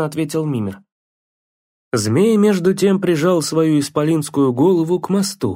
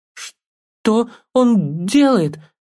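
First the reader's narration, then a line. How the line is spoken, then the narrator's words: Stuttering question. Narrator (Russian): заикающимся голосом спросил Атрей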